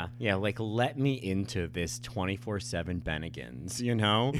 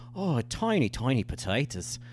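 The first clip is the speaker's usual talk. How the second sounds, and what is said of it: Poor put-on Irish accent. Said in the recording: “There is one thing I can say with an Irish accent. ... That's terrible.”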